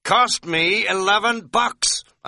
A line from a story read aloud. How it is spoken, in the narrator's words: I said to Katz a little wildly